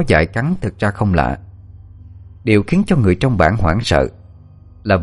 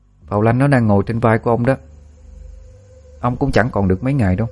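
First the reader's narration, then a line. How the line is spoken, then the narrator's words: Cold. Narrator (Vietnamese): A Phong lạnh lùng bảo với ông ta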